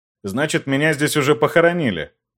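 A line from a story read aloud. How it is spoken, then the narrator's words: Wry snort. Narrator (Russian): Хмыкнул я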